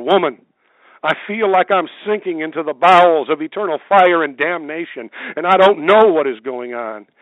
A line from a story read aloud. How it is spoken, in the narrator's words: He cried out all the more